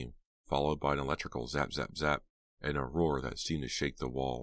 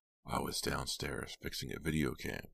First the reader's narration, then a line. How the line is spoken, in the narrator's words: he said softly